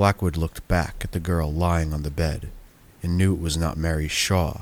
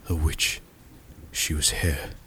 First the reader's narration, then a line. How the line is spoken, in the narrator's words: Blackwood whispered to himself